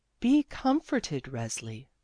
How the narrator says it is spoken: said the Sorrow Mother kindly

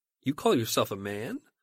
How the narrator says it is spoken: his prospective victim actually laughs and says

